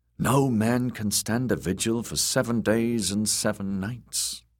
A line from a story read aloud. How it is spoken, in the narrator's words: Sir Balon said